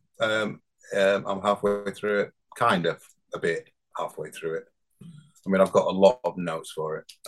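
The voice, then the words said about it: Slight northern English accent. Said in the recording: “I'm from Bradford. I don't know whether you notice the northern accent ... I heard a little twang. ... it's a tiny lilt. I lost a lot of it from living down south for 38 years, but I'm back up north now ... my accent's come back”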